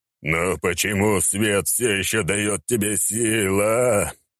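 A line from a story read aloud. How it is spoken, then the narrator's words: Moaning. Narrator (Russian): простонал Рабадон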